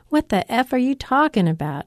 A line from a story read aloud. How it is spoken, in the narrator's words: he bellows